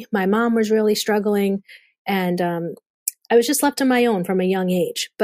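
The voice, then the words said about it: Boston accent. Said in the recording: “I hear your Boston accent.”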